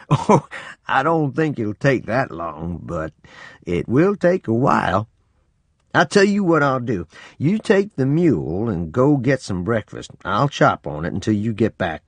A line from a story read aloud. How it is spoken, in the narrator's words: laughed and said